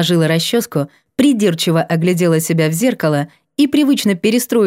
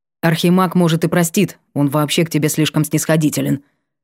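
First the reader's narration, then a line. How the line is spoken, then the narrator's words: Grumbled. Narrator (Russian): проворчал … Вольпен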